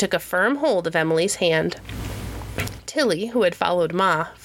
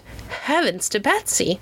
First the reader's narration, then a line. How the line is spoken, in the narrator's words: Ma, who had run down from the house with her shawl over her head, exclaimed